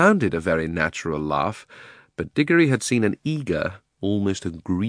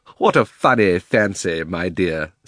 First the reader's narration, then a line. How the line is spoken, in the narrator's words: said Uncle Andrew with a laugh